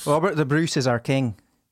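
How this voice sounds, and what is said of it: Scottish accent with rolled R's. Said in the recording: “a sentence in Scottish accent ... they'd roll their R's really good”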